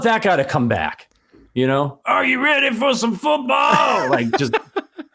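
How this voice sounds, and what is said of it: Imitates another person's voice. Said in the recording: “just to hear you do that impression. ... Yeah, I thought it was pretty good. ... Yeah, it was good.”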